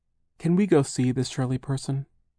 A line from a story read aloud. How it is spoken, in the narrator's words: Charles asked timidly